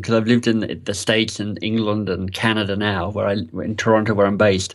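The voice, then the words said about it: Mixed, faint Australian accent. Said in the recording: “you hide it well ... the accent is a bit of a mixed accent”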